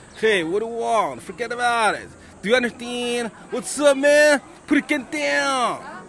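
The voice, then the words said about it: Imitated New York accent. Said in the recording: “sometimes imitate the New York accent.”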